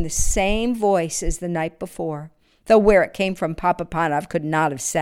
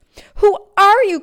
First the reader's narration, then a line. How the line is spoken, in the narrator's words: cried the old shoemaker